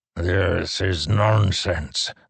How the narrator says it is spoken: the pursuer growled

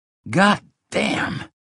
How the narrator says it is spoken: he cried in a choked voice

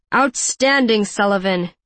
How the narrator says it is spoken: he boomed at Dad

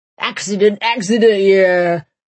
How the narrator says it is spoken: howls Bank

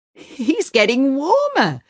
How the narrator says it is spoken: she exclaims, in triumph

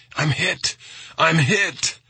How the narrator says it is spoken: Ruiz gasped

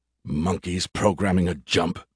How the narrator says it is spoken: he grumbled

